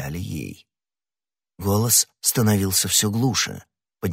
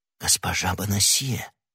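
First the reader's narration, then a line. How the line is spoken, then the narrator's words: Whisper. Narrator (Russian): прошептал Д'Артаньян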